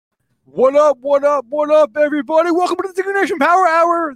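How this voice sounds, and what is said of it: High-energy imitation of another person. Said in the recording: “This is my best Luke Jacoby impression. ... Luke's energy is hard to match.”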